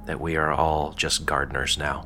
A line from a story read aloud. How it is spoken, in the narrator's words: Siloise quietly began